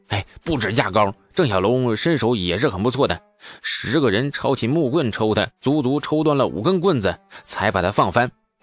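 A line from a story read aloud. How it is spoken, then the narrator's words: Hasty nervous addition. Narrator (Chinese): 王直发现李素神色不对，急忙补充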